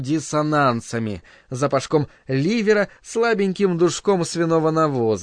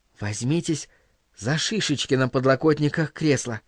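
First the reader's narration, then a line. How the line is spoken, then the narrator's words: Whisper. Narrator (Russian): шепнула Линайна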